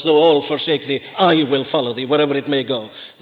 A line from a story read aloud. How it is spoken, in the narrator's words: Peter doesn't hesitate to blurt out at once